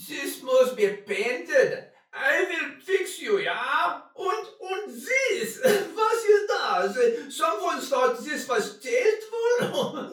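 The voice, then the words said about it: Foreign-accented character voice. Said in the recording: “It sounds foreign. ... It's not his accent anyway.”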